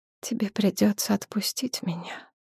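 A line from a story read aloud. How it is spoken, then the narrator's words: Quiet. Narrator (Russian): тихо сказала жрица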